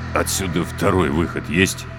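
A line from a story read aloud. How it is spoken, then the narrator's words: Utterly dejected voice. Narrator (Russian): Вконец упавшим голосом осведомился Три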